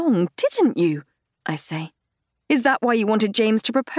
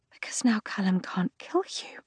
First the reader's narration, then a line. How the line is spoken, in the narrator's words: I whisper in horror